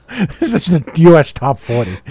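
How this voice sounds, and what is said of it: Poor imitation of another person's voice. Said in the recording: “that was the worst Casey Kasem.”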